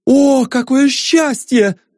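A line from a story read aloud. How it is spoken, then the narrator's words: Rapturous exclamation. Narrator (Russian): восторженно воскликнул Ванзаров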